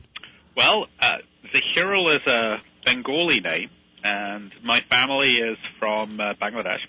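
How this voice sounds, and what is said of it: British accent. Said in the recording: “I think you can probably hear from my accent where I grew up. ... Well, probably in the UK.”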